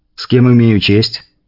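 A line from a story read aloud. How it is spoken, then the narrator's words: Calm, restrained. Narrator (Russian): Говорить я старался спокойно, без вызова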